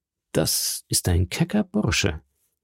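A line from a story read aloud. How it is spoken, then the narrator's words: Count murmuring. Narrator (German): murmelte der Graf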